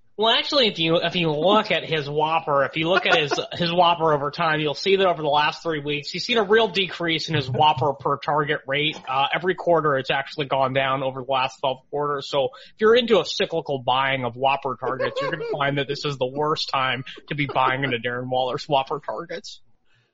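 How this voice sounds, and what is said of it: Impression of Nate Noling. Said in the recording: “do a Nate Noling impression?”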